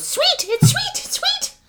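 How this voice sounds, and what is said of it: Impression of Reepicheep. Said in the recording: “great Reepicheep impression”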